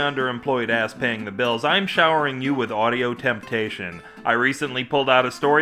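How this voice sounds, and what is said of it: Usual voice. Nothing is said of it.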